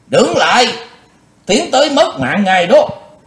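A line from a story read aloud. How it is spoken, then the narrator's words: Loud warning shout. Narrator (Vietnamese): có tiếng quát vàng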